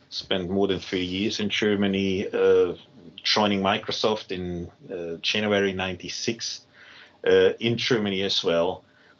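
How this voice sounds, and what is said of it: German accent in English. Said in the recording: “You hear it on my accent. I'm certainly not a native English speaker. Did not grow up in native English speaking countries. I'm born in Germany.”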